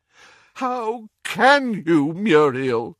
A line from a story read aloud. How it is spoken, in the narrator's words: groaned Doge